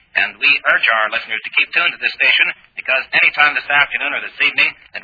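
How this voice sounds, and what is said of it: Strong Texan American accent. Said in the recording (French): “On n'est pas planqué au fin fond du Texas. Quel accent. Mon Dieu, quel accent.”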